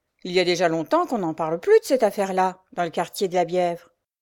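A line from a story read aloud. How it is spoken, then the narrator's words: Grumbling. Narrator (French): grommela un autre agent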